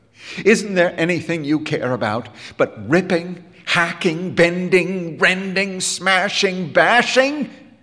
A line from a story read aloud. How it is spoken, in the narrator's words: He cried